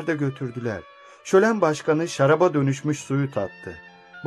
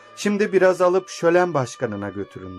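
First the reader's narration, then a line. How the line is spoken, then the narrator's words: Plain. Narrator (Turkish): dedi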